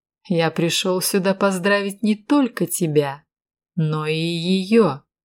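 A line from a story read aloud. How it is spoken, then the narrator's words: Plain. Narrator (Russian): сказал Брэдли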